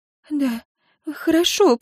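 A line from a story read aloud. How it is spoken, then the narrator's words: Tearful mumble. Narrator (Russian): пробормотала Синтия и, вновь всхлипнув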